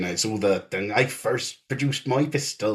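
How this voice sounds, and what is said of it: Failed Irish, sounds West Country Cornish. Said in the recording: “that was a West Country Cornish accent. Sorry to the Irish out there ... my Irish isn't great”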